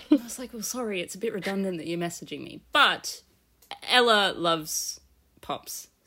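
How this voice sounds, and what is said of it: Non-British accent. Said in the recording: “As you can tell by my accent, I am not from the UK”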